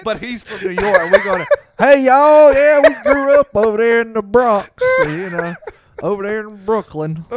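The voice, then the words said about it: Southern American accent. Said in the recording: “with that southern accent”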